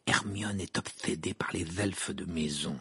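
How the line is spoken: Whisper. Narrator (French): murmura Ron à Sirius

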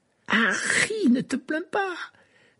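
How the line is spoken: Enthusiastic. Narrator (French): dit Ron d'une voix enthousiaste

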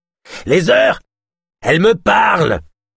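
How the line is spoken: Sudden shout. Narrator (French): cria soudain Yosp

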